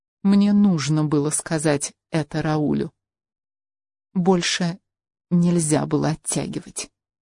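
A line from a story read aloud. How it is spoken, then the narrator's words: Throat-clearing, then quiet. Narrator (Russian): Хелена прокашлялась и тихо сказала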